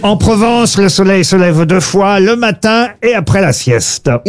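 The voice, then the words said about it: Slight put-on southern French accent. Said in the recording (French): “Vous avez utilisé un petit accent. ... Bah oui, puisque ça parle du midi”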